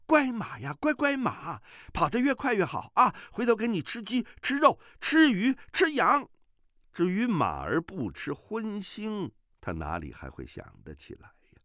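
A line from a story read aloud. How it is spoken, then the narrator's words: Shouting. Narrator (Chinese): 段誉大叫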